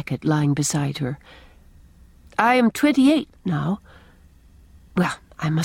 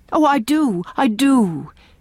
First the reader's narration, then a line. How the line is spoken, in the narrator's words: exclaimed Leslie, with an eagerness which seemed to burst forth and beat down some restraint that had been imposed on it